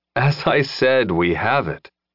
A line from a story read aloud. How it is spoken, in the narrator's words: Lin said with a sigh